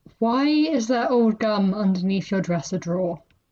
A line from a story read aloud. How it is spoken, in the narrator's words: they asked